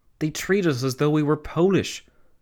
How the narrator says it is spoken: Karl Renner, the Austrian Chancellor, had exclaimed

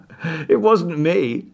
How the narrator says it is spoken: said, laughing

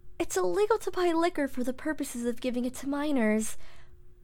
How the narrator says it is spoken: She cleared her throat nervously and replied

